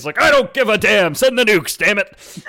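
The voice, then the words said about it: Yelling gruff Obama impression. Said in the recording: “me yelling like that was my impression of Obama ... Which was pretty spot on ... Obama is a stereotypically gruff voice.”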